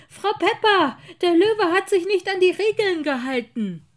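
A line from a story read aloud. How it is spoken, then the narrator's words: Calling out while walking. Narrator (German): rief er im Gehen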